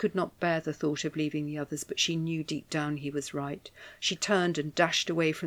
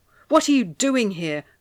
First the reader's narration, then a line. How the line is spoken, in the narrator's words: Valentina asked angrily